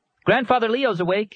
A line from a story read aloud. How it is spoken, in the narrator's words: he shouted